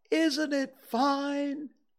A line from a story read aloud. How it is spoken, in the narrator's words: shouted Winnie the Pooh down to you